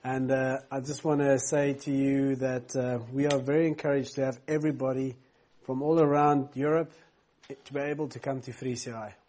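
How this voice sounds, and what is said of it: Non-local accent. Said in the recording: “If you wonder where my unique accent is from, it's not from here.”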